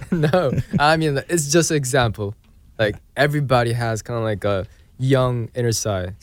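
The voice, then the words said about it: Slightly British-sounding English accent. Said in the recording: “your accent is impeccable ... Accents are changing ... My English accent is like ... British”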